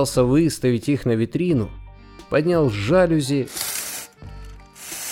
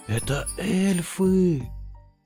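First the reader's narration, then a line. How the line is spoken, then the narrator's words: Whispered. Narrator (Russian): прошептал сапожник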